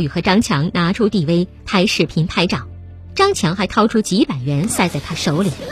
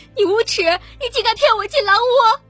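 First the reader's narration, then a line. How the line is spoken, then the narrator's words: Crying, loud accusation. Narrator (Chinese): 王红哭着大声质问林烨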